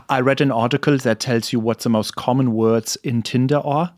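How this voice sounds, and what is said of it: Usual voice. Nothing is said of it.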